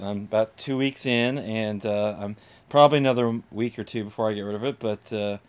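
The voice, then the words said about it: Sick, congested-sounding voice. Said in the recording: “you can probably hear it in my voice”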